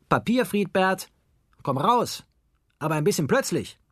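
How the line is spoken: Called out. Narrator (German): Franz rief

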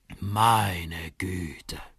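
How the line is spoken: Dad groaning. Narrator (German): stöhnt Papa

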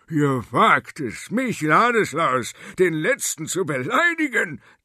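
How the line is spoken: Thundered in rage. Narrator (German): donnerte er, indem er aufsprang

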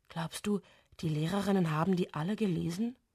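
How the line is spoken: Whispered. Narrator (German): flüstert Karabo

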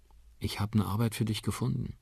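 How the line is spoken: Quiet. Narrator (German): sagt Liam leise

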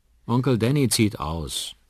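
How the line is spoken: Sad. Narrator (German): antwortet Liam traurig

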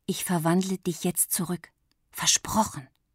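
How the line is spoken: Whisper in ear. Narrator (German): flüsterte Lilli der Maus ins Ohr

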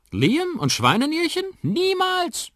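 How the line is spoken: Grandmother calling out. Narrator (German): ruft Oma

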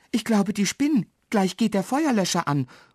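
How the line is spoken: Calls out. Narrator (German): ruft

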